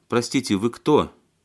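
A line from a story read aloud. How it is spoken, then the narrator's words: Stern woman. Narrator (Russian): строго спросила женщина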